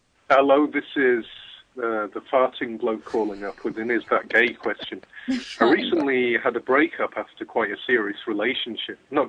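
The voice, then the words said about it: English accent. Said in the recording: “you'll recognize this accent ... the farting Englishman”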